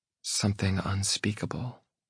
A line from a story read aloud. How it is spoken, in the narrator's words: she whispers